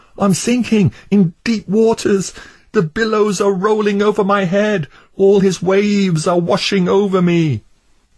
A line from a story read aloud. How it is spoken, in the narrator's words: Crying out to his good friend Hopeful, he shouted